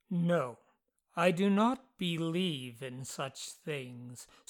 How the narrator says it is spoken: Sweeney replied gravely

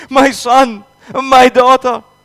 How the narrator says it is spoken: Other forlorn parents only wailed helplessly

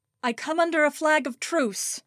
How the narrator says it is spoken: cried so the ragged men on the battlements could hear

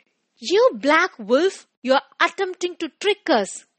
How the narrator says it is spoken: exclaimed frantically

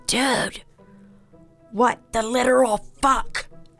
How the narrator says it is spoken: Cam, in a loud whisper, says

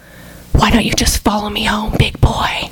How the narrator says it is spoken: whispering into his ear

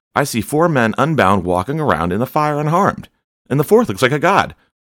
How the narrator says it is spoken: Nebuchadnezzar shouted

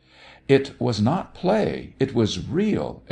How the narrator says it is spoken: exclaimed Minsky vehemently

